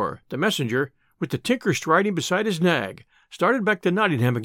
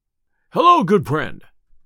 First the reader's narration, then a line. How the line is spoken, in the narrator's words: cried Robin